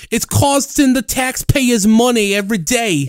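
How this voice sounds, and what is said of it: Thick New York accent. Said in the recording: “thick New York accent”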